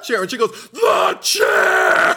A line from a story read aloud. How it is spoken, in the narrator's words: screaming her head off at him because he's not helpful in a crisis